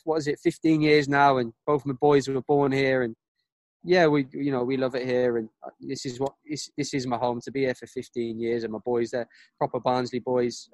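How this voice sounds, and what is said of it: Dutch speaker with Barnsley accent. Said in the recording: “his Dutch Barnsley accent is unbelievable, isn't it? It's crazy, isn't it? ... it's similar to yours, uh, Southern Barnsley accent.”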